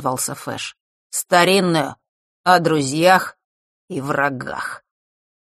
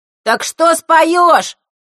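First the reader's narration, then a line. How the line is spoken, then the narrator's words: Impatient shout from back. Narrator (Russian): нетерпеливо выкрикнули из задних рядов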